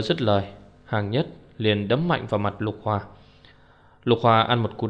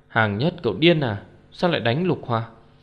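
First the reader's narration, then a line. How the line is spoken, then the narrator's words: Surprised cry. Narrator (Vietnamese): Mọi người kinh ngạc, Lôi Ngạo kêu lên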